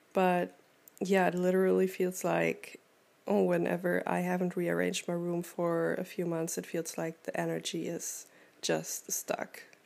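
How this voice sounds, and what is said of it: Slightly cranky, stumbling voice. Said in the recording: “talking is also very hard for me right now. This is actually the first time that I'm talking today ... I'm stumbling over my own words and if my voice sounds a little cranky”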